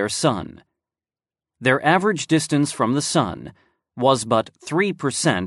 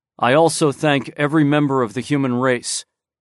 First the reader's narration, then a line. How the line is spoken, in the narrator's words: said Bai Ice